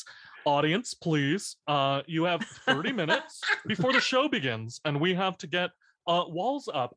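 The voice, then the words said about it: Imitates another person's voice. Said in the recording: “Tim Gunn impression ... That's always my impression.”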